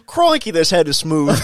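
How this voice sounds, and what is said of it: Imitated Australian accent. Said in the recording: “your best impression of an Australian accent”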